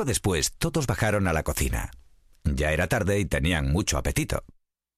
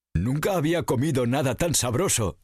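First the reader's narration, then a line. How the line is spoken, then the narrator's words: Exclaimed. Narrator (Spanish): exclamó Bonachón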